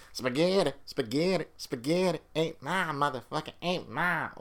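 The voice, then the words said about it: Imitates another person's voice. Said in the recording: “Doing my Chappelle voice.”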